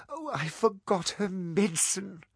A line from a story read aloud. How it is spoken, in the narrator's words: cried Lady Helen